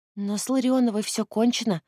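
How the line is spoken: Timid. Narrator (Russian): робко подала голос Лиза

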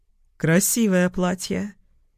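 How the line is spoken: Said softly. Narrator (Russian): произнес он мягко

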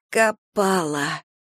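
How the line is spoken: Hoarse rasp. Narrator (Russian): прохрипела Гидеон

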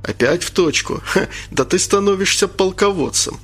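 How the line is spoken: Laughing. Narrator (Russian): засмеялся Анатолий

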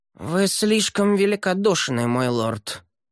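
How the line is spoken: Through gritted teeth. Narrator (Russian): процедила Шанри

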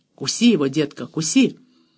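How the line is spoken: Quiet, insistent. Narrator (Russian): Профессор Гуттон негромко, настойчиво произнес

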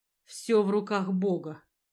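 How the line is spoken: Breathy exhale. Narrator (Russian): выдохнул

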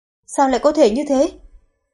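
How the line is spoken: Shouted. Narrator (Vietnamese): Hirayama Zero hét lên

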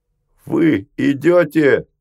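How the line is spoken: Shouting in chorus. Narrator (Russian): закричали они хором

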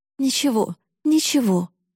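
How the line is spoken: Pleading. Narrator (Russian): взмолилась мама

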